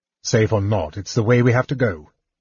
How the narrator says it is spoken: Tanis snapped

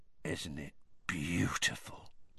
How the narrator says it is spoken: said Hagrid softly

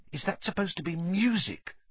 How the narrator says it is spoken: Ron whispered

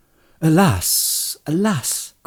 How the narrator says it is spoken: cried Legolas, and in his fair elvish face there was great distress

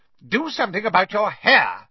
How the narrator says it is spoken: Aunt Petunia snapped

